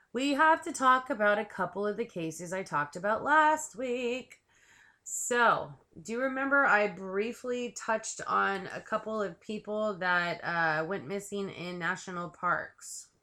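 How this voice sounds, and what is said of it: Scratchy, hoarse voice. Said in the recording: “my voice is all scratchy again ... I'm trying to lose my voice ... the scratchy voice”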